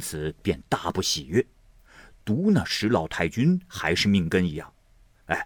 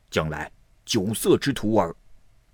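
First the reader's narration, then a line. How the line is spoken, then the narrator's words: Furious. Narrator (Chinese): 郑老爷便大怒了，说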